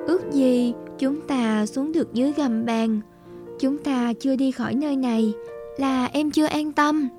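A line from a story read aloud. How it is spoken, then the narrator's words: Sighing again. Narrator (Vietnamese): Nàng lại thở dài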